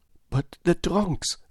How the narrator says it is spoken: gasped Passepartout

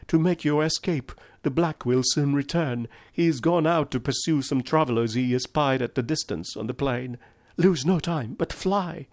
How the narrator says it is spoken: cried

